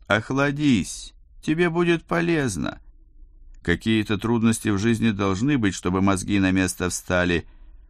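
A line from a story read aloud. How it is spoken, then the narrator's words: Fatherly tone. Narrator (Russian): отеческим тоном заключил капрал Дзержинский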